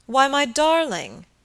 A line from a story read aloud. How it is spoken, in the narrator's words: exclaimed